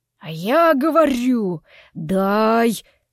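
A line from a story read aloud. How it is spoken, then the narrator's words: Low hoarse demanding man. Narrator (Russian): низким хриплым голосом требовал мужчина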